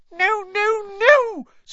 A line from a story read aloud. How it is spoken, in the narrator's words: squeaked Dobby